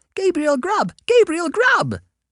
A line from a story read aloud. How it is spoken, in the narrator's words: exclaimed the wild voices again